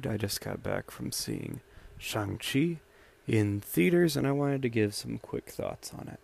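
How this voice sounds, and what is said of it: Scratchy, tired voice. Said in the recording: “my voice is a little scratchy, I'm pretty tired”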